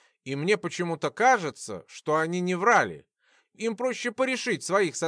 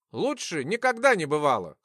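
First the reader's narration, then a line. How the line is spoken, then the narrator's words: Wry snort. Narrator (Russian): хмыкнул я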